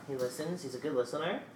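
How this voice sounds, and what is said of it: Cooing baby voice. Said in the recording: “you use your baby voice.”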